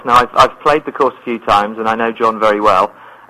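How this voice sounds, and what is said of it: English accent. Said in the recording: “his accent ... I'm from Shropshire in England, so very, very English.”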